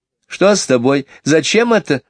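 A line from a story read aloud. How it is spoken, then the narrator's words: Laughing. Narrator (Russian): засмеялась Барбара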